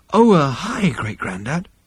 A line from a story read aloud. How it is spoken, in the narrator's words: breathed